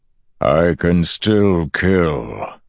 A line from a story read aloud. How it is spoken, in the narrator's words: the Dark One bellowed